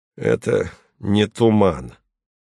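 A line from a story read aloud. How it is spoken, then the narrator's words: Through gritted teeth. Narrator (Russian): сказал Турнин сквозь зубы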